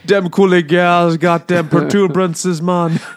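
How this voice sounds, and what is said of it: Put-on Jamaican accent. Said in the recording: “Is Daniel Craig doing the fucking accent the whole time? ... he'll go into space and become a space Jamaican.”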